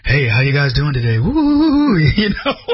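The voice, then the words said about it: Exaggerated radio announcer voice. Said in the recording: “you have a voice for radio ... I don't have that voice”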